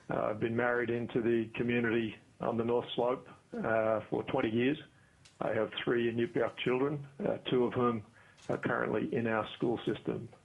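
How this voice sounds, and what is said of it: Australian accent. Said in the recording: “As you can probably hear from my accent, I am not originally from Alaska. I'm from Australia.”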